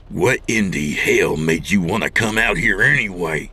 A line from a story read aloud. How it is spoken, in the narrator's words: Dawn growled